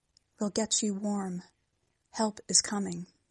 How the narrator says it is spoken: the officer whispering

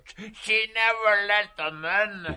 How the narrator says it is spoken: he cried again through his laughter

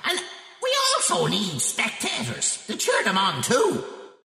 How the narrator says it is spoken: shouted Column

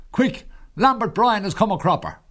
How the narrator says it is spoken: shouts and roars

